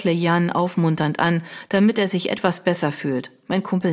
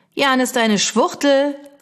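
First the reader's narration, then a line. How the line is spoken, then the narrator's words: Older boy shouting while running. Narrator (German): ruft einer der größeren Jungs, der auf uns zugerannt kommt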